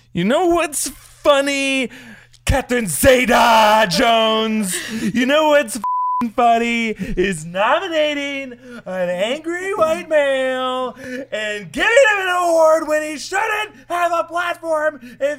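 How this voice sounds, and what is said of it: Impression of Joaquin Phoenix's Joker. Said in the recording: “your best impression of Phoenix in character as Joker giving his acceptance speech”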